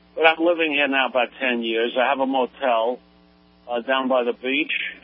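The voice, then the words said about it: New York accent. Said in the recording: “everyone with a New York accent”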